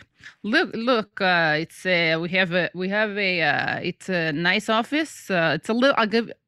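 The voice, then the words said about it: Put-on Russian accent. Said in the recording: “wait, I'm sounding Russian.”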